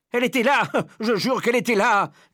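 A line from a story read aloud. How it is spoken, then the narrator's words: Man shouting. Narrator (French): criait l'homme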